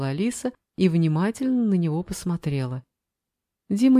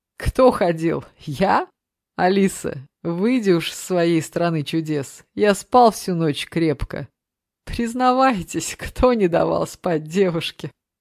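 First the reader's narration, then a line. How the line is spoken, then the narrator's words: Loud laughter. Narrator (Russian): расхохотался блогер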